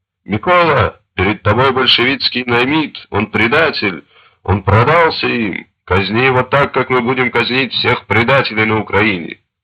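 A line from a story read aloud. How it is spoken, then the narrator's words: High-pitched shout. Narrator (Russian): Шухевич тонко крикнул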